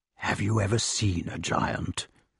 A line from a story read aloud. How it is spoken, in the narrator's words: asked Merlin softly, so as not to interrupt the reading